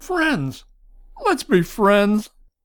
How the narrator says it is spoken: Morgana shouted

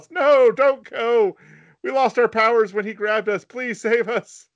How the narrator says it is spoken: she yells

